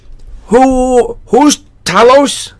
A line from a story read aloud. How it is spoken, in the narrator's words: I stuttered